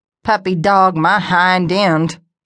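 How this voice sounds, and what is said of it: Thick southern drawl. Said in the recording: “her southern drawl thick”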